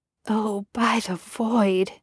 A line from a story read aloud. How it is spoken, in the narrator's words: he muttered